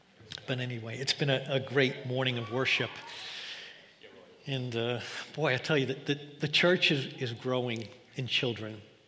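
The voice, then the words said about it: New York accent. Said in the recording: “He recognized my accent. ... "You're not from around here." ... I told him New York”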